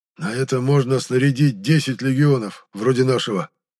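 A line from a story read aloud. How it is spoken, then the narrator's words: Hoarse mutter. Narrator (Russian): сипло пробормотал Нирен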